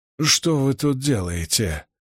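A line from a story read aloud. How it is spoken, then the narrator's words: Hoarse demanding, then quieter. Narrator (Russian): хриплым голосом требовательно спросил Мэтт, но тут же заговорил тише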